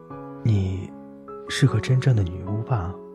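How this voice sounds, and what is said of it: Quiet, soft question. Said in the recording (Chinese): “小声地问”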